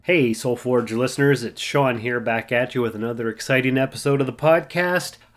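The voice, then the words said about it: Sounds sick, unwell voice. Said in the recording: “Perhaps you can hear it in my voice. ... I've been sick or something.”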